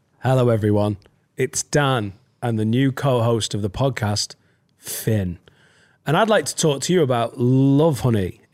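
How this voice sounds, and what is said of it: Put-on sexy voice. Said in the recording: “in this sexy voice ... Let's just be sexy with it.”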